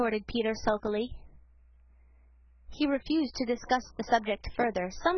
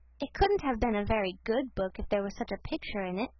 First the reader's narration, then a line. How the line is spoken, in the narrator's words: said Felicity